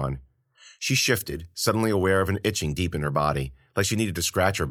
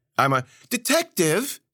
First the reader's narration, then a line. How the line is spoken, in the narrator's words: Ella squealed